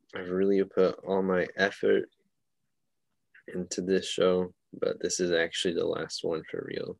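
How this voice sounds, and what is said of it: Sad, downcast delivery. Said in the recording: “You sound so sad.”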